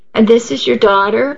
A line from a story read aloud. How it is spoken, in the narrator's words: Allie asked brightly